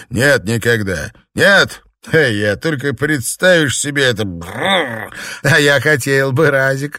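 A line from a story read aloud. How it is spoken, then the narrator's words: Laughing. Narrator (Russian): засмеялся Ли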